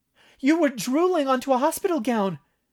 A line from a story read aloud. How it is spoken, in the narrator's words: Tally exclaimed, unable to help herself, and laughed in shocked delight